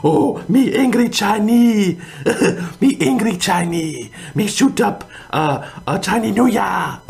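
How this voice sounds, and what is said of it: Put-on mock Chinese accent. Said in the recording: “doing that Chinese voice.”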